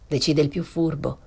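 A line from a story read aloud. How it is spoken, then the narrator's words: Plain. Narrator (Italian): disse Febo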